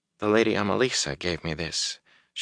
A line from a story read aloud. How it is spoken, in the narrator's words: she said so softly he wondered if she was speaking to herself